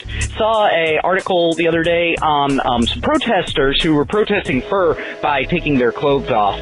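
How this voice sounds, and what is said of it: Energetic, clear, well-enunciated radio voice. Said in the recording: “you have a fantastic radio voice. ... Very energetic. ... that much energy and being so clear and enunciating.”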